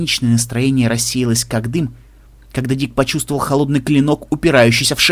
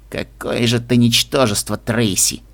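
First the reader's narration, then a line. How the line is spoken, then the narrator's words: Through gritted teeth. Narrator (Russian): процедил Рок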